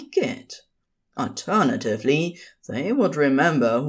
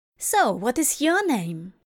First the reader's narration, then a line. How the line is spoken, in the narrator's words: Kalido asked happily